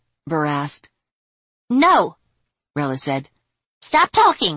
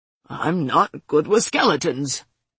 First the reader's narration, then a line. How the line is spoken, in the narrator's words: he mumbled